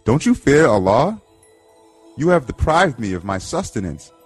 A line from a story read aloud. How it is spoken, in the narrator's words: The wolf exclaimed